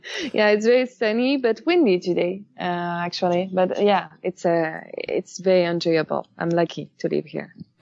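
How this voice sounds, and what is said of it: French accent in English. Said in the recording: “by judging by your accent, you're not a natural Californian ... I'm French”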